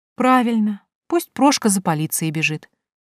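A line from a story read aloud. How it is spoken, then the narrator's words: Calm. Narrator (Russian): спокойно сказала я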